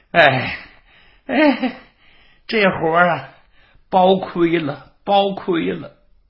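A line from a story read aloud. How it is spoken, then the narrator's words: Sighing, groaning. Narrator (Chinese): 这20名脚夫唉声叹气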